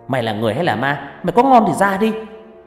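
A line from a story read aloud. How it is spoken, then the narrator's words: Shouting. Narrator (Vietnamese): hét lên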